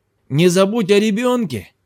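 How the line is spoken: Insistent shout. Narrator (Russian): крикнул настойчивый Джад через плечо

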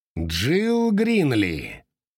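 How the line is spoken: Thundering voice. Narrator (Russian): прогремел Чип

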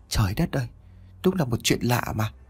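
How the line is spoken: Woman muttering. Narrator (Vietnamese): Mẹ tôi bà lẩm bẩm

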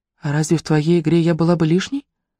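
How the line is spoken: Sighing. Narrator (Russian): Анри вздохнул

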